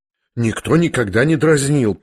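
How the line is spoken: Frightened mutter. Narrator (Russian): пробормотала в испуге Аделаида

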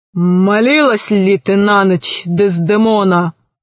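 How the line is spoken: Menacing question. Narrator (Russian): спросил грозным голосом

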